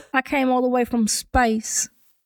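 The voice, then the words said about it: Western accent. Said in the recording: “a fucking Western accent”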